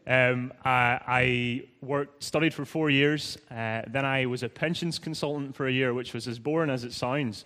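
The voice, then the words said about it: Northern Irish accent. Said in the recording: “I'm originally from Northern Ireland, as you may have guessed by now ... my Irish accent”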